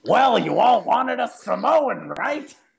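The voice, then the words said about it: Imitates another person's voice. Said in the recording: “in my Vince McMahon voice”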